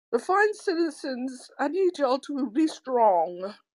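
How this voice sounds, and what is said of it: Put-on British accent. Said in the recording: “Is that your British accent? ... Yes, that's my British accent.”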